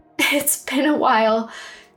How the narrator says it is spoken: she gasped

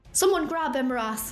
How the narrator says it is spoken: Navon gasped

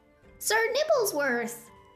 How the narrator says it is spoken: Hiccup cried

